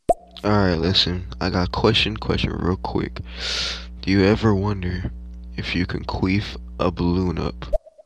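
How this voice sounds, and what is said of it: Man with a distinctive accent. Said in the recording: “Another cool accent, though, from that gentleman”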